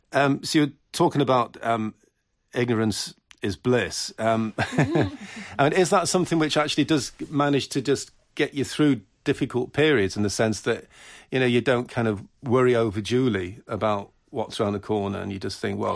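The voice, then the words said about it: Mancunian English accent. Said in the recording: “Was that my Mancunian accent, was it?”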